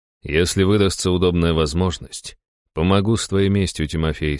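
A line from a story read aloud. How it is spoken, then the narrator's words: Plain. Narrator (Russian): сказал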